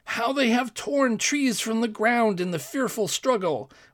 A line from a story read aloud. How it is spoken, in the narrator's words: exclaimed one of the courtiers